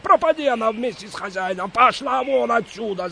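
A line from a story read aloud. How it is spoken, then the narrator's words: Yelling. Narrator (Russian): заорал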